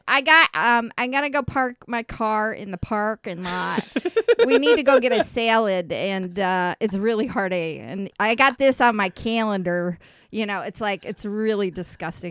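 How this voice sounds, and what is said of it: Upstate New York accent. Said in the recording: “What is the best accent you could do? ... I could do upstate New York where I'm from.”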